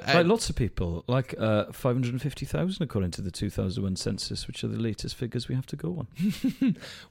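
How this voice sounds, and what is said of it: Welsh accent. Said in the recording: “you're Welsh. I think people could probably deduce by your accent”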